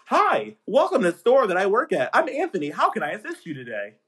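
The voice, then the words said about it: Polite customer service voice. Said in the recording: “Customer service voice”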